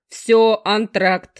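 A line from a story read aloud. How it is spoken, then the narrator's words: Barked shout. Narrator (Russian): рявкнул я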